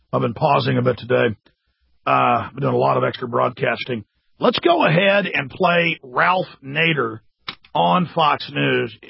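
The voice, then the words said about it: Raspy, hoarse voice. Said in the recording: “my voice is a little more raspy than usual, I've got a sore throat today and a cough”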